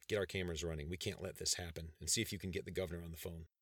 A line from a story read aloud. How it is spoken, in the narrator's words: Wellington mumbled to a deputy beside him